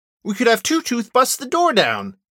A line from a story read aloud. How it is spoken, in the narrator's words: Nessa exclaims